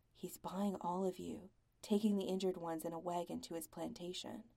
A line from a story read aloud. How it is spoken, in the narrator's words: Zach says quietly